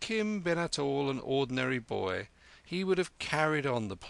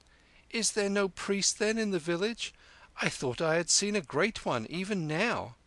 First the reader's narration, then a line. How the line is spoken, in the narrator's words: cried Kim